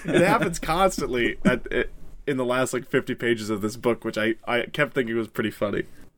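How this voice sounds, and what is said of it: Sick, congested voice. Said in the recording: “if my voice is annoying you, I am sick”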